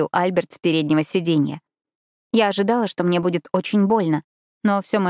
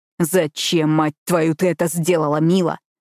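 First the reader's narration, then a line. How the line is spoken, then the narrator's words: Deep hoarse growl. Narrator (Russian): зарычал глубоким, хриплым голосом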